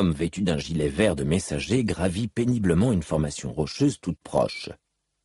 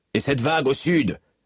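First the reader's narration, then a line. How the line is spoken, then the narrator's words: Yelled reply. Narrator (French): hurla en réponse le chef d'escouade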